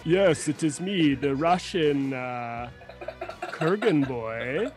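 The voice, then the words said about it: Put-on Russian accent. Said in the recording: “I know that accent was pretty good.”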